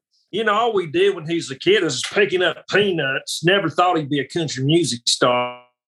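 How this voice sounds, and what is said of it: Southern Georgia drawl impression. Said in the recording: “I go back and do my best to do my impersonation of them. So Luke, I've got down pat pretty good ... he's a Southern Georgia guy”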